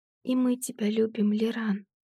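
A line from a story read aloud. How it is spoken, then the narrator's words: Barely audible whisper. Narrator (Russian): прошептала едва слышно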